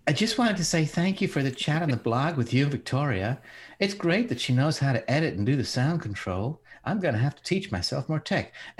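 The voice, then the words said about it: Man imitating a woman's voice. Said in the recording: “your impression of women”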